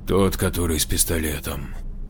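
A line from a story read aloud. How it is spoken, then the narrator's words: Sighing. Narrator (Russian): вздохнул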